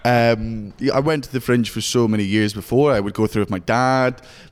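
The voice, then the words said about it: Scottish accent. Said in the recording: “You could never tell with your accent, but yes, everybody, he's actually from Scotland. ... He's not putting this on.”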